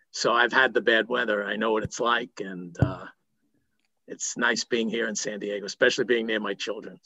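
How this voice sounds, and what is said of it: New York accent. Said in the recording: “I was in New York for many years, as you could hear in my voice.”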